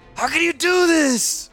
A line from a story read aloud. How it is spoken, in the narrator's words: Crovax shrieked